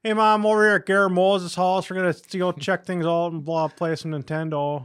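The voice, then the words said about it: Thick Iron Range Minnesota accent. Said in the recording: “It's just terrible, thick Iron Range accent.”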